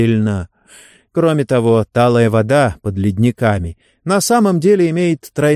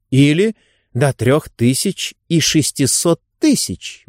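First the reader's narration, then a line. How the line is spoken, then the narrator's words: Exclaimed. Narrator (Russian): воскликнула Адель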